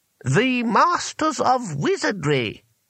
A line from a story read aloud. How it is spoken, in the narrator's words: said the voice haughtily